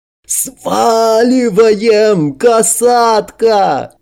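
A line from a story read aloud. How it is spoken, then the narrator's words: Frantic yell. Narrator (Russian): Последний, только сейчас осознав угрозу, припустил еще быстрее, истошно заорав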